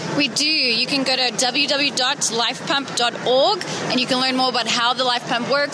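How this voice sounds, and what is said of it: South African accent. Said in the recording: “from an accent ... you're from South Africa, right?”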